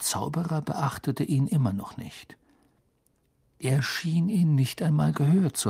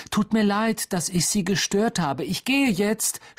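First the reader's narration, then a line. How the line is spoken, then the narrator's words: Near shout. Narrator (German): schrie er beinahe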